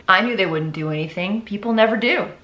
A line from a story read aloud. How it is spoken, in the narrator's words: He calmly replied